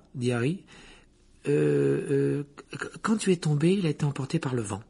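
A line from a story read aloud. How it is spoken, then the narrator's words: Hesitant reply. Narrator (French): répondit Hermione d'un ton hésitant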